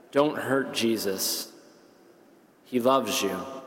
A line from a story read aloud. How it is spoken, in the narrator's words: very earnestly and gently added